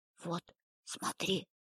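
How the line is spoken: Whisper. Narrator (Russian): прошептала Полина

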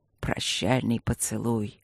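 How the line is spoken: Listless mutter. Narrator (Russian): пробормотал Люк вяло

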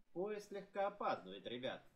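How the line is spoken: Cheerful. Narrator (Russian): весело сказал он

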